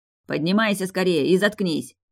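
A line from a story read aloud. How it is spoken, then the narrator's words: Growled. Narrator (Russian): прорычал он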